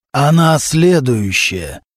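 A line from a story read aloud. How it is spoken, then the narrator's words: Hoarse male voice over phone. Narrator (Russian): раздался из трубки хриплый мужской голос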